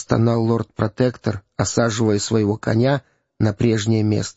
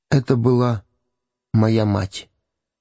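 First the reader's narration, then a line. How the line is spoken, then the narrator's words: Child's lifeless voice. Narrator (Russian): Нарядный ребенок вымолвил безжизненным голосом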